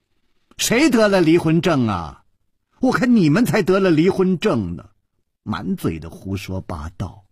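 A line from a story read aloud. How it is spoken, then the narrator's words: Angry loud voice. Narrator (Chinese): 那个尸体的脸好像气红了，他大声地说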